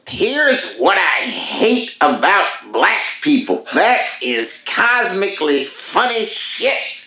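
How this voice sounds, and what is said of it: Dave Chappelle impression. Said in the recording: “I'm going to do my best Chappelle impression for you”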